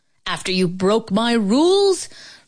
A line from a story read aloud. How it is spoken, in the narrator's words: Brother Coin roared